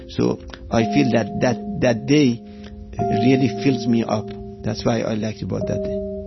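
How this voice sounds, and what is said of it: Iranian-accented English. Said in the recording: “I'm not from United States, as you notice from my accent. I'm from Iran.”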